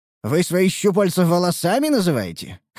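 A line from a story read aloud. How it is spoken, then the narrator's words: Smirking grunt. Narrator (Russian): хмыкнул я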